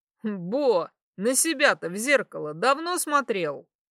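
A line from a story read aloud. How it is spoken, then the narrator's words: Laughing young man. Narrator (Russian): хохотнул парень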